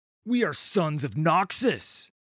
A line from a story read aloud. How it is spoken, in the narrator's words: he bellowed